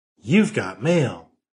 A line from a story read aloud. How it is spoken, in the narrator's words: Immediately, computer cheerfully informed him